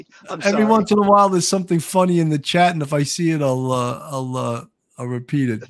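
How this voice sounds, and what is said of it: Slightly tired voice. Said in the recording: “my voice is getting a little tired”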